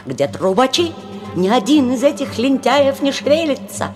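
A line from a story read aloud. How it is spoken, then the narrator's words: Irritated shouting. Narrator (Russian): кричал раздраженный Щелкунчик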